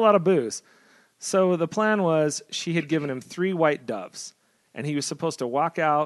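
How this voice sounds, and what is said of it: Usual voice. Nothing is said of it.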